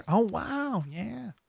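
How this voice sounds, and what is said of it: Owen Wilson impression. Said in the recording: “my Owen Wilson impression.”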